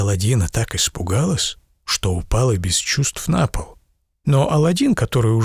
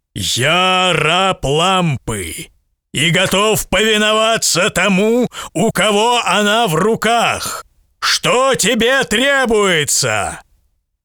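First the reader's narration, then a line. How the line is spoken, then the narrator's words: Thunderous voice of a giant. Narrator (Russian): колоссальный крылатый джинн и громовым голосом сказал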